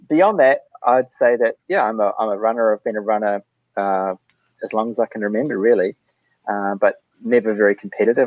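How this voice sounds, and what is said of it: New Zealand accent. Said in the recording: “my terrible Kiwi accent”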